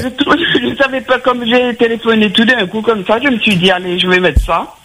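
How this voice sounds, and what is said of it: Regional French accent. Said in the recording (French): “J'aime bien l'accent.”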